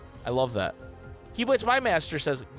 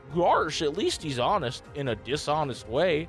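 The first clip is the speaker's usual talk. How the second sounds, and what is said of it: Goofy impression. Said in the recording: “I just did my best Goopy voice.”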